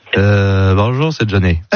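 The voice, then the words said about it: Nasal, stuffy imitation of another person. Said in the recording (French): “imitation de Johnny ... C'est Johnny qui parle du nez, quoi. Qui est enrhumé, quoi.”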